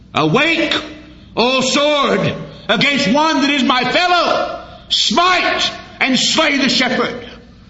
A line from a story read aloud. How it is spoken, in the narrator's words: justice cried